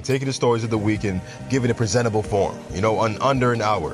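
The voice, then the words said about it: Mock announcer voice. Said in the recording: “an announcer voice.”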